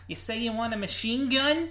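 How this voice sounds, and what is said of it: Edward G. Robinson impression. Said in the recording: “When I can't do a voice, I just go to the ... So Edward G. Robinson's your go-to, eh?”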